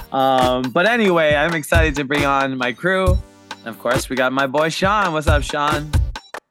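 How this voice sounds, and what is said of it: Hoarse, worn-out voice. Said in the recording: “lost my voice”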